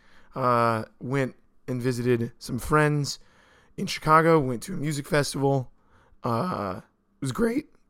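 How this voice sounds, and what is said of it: Slightly hoarse, worn voice. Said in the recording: “my voice is a little gone from the weekend.”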